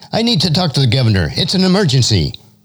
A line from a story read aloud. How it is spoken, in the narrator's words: one of the top attorneys for the state, Don Donaldson, frantically blurted out